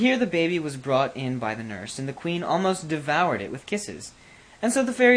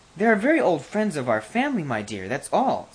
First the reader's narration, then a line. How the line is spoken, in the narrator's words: said the king timidly